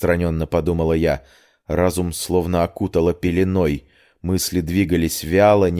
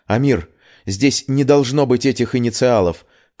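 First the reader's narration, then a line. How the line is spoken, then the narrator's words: Shout. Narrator (Russian): крикнула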